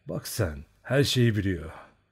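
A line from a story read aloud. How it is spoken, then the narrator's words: Muttering. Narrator (Turkish): diye mırıldandı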